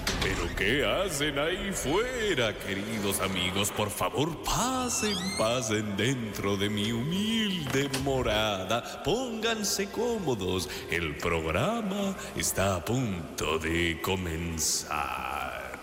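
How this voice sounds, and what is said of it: Caricatured exaggerated accent. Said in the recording (Spanish): “con acento caricaturesco”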